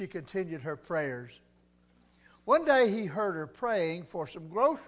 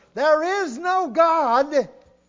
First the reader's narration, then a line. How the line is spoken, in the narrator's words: he'd holler